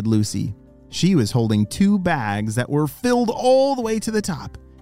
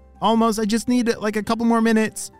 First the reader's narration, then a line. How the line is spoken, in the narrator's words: shouted Ollie